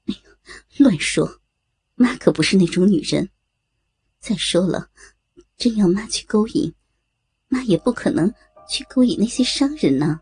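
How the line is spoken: Teasing, laughing. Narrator (Chinese): 张兰兰打趣的，笑着说道

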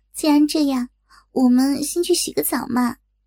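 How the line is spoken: Sly mischievous. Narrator (Chinese): 小颖暗地里坏笑了一下，说道

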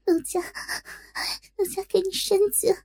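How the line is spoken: Shy, coyly petulant. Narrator (Chinese): 芳心大羞，娇嗔道

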